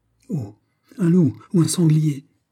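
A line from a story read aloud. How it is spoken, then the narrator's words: Exclaimed. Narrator (French): s'écria Montalais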